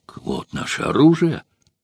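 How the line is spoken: Joyful exclamation. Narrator (Russian): воскликнул Спартак, и глаза его засияли от радости

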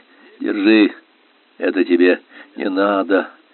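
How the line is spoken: Said with a sigh. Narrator (Russian): сказал Арни и вздохнул

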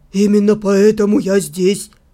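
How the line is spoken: Snort. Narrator (Russian): Енор хмыкнул

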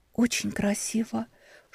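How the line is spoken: Whisper. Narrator (Russian): шепотом сказала Тисса

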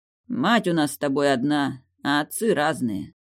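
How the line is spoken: Muffled curt remark. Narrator (Russian): глухо бросил Риго

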